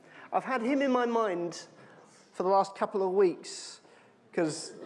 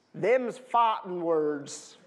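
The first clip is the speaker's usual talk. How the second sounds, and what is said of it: Put-on cowboy accent. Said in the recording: “That's the best kind of cowboy accent I can do.”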